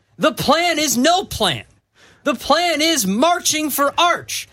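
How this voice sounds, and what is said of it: Yelling, worked-up delivery. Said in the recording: “Why are you yelling? ... get you so worked up”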